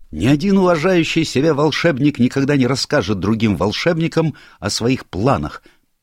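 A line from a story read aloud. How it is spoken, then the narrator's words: Fervent shout, professor. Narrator (Russian): пылко выкрикнул профессор современного руносложения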